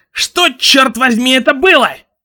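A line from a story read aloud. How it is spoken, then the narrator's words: Shouted. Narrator (Russian): крикнул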